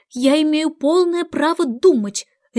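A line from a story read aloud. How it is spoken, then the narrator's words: Sharp, exasperated. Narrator (Russian): резко сказала Алиса, которой все это страшно надоело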